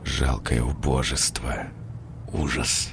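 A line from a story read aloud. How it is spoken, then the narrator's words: Self-loathing whisper. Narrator (Russian): шептал, продолжая ненавидеть себя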